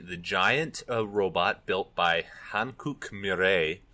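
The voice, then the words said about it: Put-on accent on a name. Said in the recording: “I don't know what accent I'm putting on that”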